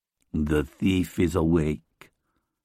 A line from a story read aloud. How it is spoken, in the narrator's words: he says in a low, intelligent voice